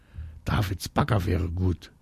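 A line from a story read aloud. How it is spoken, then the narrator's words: Very quiet. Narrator (German): sagt Marie ganz leise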